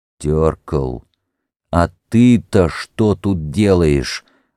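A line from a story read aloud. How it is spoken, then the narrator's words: Stern, suppressing laughter. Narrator (Russian): МакМёрфи старался говорить строго, а сам с трудом сдерживал смех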